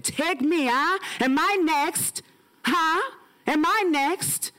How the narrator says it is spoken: he cried

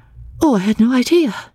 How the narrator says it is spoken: she exclaimed, getting very red

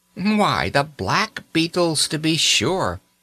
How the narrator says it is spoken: replied Nurse cheerfully

